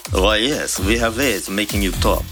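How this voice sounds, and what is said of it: Put-on Russian accent. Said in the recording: “kept going off all day in his Russian accent”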